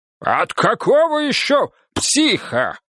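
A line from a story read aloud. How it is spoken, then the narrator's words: Barked. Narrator (Russian): рявкнул Рыков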